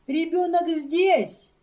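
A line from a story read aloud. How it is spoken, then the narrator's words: Shouting. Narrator (Russian): крикнула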